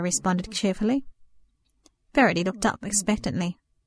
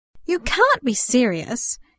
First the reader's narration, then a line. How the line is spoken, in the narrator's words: Cara exclaimed